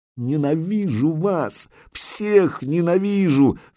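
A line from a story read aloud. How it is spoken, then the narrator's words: Shriek. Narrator (Russian): завизжала Зарица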